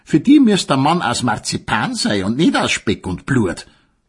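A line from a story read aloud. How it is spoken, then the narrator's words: Mocking sausage voice. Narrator (German): sagte die Selchwurst höhnisch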